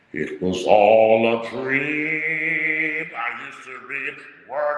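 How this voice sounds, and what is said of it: Rap lyrics sung in opera voice. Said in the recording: “you sing it in your best opera voice.”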